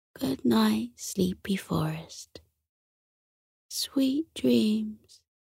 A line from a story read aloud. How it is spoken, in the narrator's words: he said sleepily